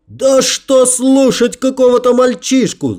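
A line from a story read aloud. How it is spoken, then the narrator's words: Wailing yell. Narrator (Russian): завопил кто-то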